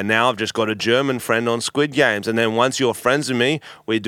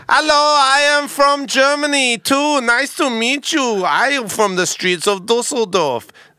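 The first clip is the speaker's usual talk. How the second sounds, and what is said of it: Put-on German accent. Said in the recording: “I'm pretty good at accents ... Pick an accent ... German.”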